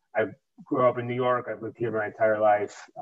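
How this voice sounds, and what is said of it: New York accent. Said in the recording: “everybody loves a New York accent, right? So I can totally pick up the accent.”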